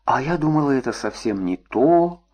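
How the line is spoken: Disappointed mumble. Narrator (Russian): разочарованно пробормотала Маша

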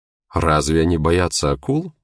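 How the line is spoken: Plain. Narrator (Russian): спросила она

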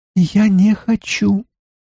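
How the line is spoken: Thin squeaky voice. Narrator (Russian): произнесла она тоненьким голоском, похожим на писк

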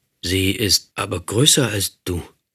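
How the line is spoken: Dazed stammer. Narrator (German): stotterte ich völlig benommen, nicht nur von ihren Worten, sondern auch davon, dass sie gar nicht mit dem Mund sprach

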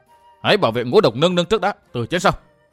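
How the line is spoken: Sudden loud bark. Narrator (Vietnamese): Miêu Sở Thiên đột nhiên quát lớn

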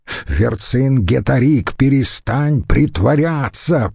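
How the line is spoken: Thundering voice. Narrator (Russian): прогремел

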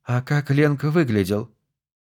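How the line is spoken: Sighing question. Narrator (Russian): Нора вздохнула и спросила

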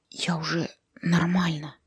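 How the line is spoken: Whisper. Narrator (Russian): прошептал Зарубик

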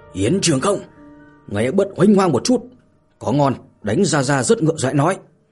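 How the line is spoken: Furious, humiliated yelling. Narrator (Vietnamese): Hàn Phong thẹn quá hóa giận, vừa tức tối gào thét

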